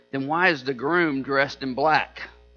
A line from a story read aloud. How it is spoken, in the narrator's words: The little girl whispered